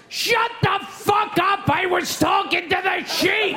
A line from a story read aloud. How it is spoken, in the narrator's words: The farmer yells